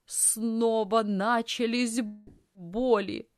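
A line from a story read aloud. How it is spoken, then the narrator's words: Moaning in pain. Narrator (Russian): застонала тетя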